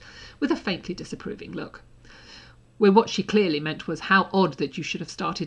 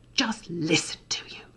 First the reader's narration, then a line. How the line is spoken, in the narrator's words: Draco hissed, barely audible